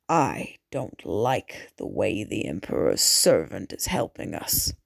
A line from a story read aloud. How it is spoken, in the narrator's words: the Baron muttered